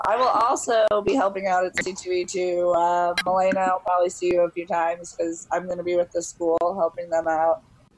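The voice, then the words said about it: Nasal, congested voice from a cold. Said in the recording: “I have a cold tonight, so sorry that my voice sounds more nasally than ever ... it's not this bad usually”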